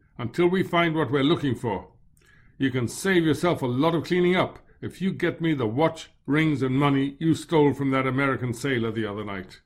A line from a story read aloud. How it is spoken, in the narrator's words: he said curtly